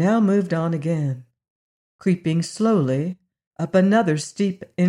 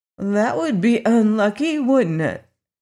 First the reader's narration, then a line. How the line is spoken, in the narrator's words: cried Dorothy